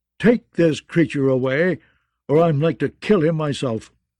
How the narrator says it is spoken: Lord Nestor growled

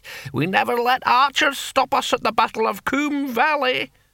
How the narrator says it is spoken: cackled the antique barbarian

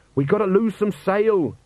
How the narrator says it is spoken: shouted Jenkins

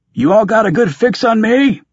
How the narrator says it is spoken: I yelled at Bucket

